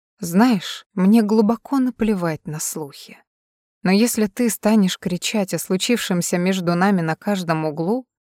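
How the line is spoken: Almost tender whisper. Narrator (Russian): почти нежно ... шепнул

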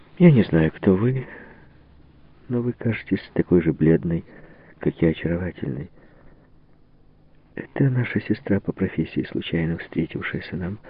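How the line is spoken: Plain. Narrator (Russian): сказала Ванина

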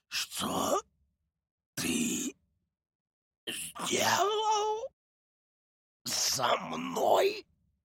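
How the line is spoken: Hoarse god. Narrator (Russian): прохрипел бог

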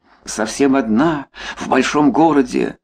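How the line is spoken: Louder groan. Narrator (Russian): Он простонал еще громче

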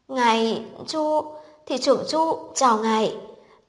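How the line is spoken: Startled stammering. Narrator (Vietnamese): ông đột nhiên như bị kim đâm nhảy dựng lên, lắp bắp nói

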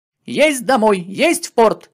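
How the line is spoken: Joyful shouting. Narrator (Russian): радостно закричал матрос

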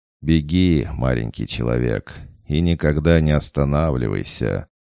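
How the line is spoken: Laughing farewell. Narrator (Russian): Ешу с хохотом проводил

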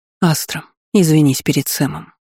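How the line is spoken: Soft, offhand. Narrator (Russian): мягко бросила Магини знахарка

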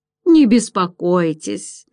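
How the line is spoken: Laughing. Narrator (Russian): засмеялся Руперт

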